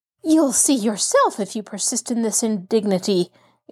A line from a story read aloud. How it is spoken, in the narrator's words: exclaimed the woman, a spot of scarlet flaming into each cheek